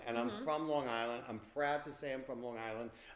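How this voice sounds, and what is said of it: Long Island accent. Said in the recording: “I'm from Long Island... I don't give a shit if you like my accent or not. It's who I am.”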